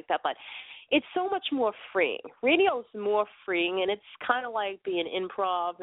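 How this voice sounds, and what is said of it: Thick Boston accent. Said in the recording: “I come from Boston ... my accent's really that thick. It's even thicker than some of my friends.”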